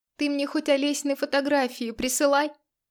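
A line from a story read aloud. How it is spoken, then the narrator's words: Sudden shout. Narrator (Russian): крикнула вдруг она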